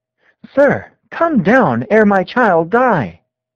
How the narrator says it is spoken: In an agony of supplication, he cried

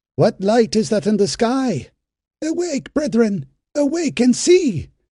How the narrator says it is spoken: someone on the roof cried out

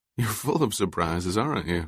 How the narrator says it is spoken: Kaela said, laughing

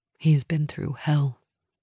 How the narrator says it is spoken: Nora said softly

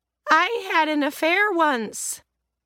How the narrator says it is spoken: Estelle said cheerfully from the other end of the apartment, because she'd found another bottle of wine in the kitchen

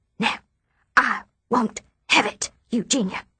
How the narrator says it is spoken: Mother whispers

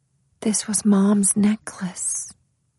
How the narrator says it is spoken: she said in a hushed tone

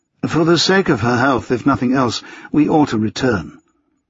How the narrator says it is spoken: His tone was charmingly bland as he said

